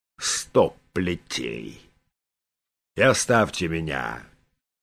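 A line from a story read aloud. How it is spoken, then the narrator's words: Angry mutter. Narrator (Russian): Раджа, пробормотал со злостью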